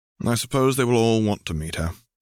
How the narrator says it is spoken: sighed

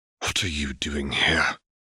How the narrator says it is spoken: Lucius hissed

